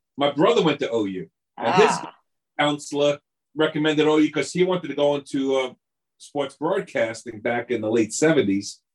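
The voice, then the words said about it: Long Island New York accent. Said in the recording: “I'm guessing you're from New York City and whereabouts from that Long accent. Island. Long Island.”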